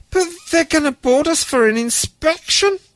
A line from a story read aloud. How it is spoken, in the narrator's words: Alec sobbed